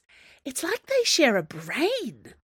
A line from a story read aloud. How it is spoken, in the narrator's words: she said in a strangled voice